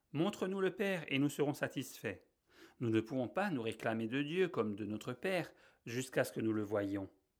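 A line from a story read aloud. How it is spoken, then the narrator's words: Many voices exclaiming. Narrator (French): des milliers d'âmes s'exclament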